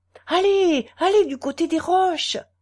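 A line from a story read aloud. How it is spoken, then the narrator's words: Shouted, old man. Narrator (French): cria le père Fourchon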